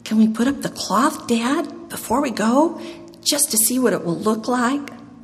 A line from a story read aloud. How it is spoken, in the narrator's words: Jonathan pleaded